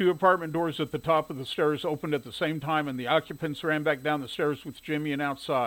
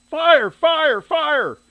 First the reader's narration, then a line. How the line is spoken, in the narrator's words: The smoke was burning his eyes and throat as he ran to the top of the stairs yelling